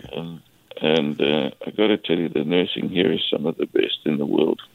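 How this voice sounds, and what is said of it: South African accent. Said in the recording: “As you can hear from my accent, I'm originally from South Africa.”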